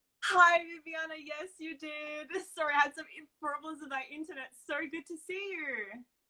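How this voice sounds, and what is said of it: Australian accent. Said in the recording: “your Australian accent ... it's in an Aussie accent”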